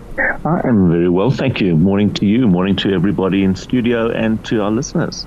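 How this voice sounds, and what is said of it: Tired-sounding voice. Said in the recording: “You sound a little tired.”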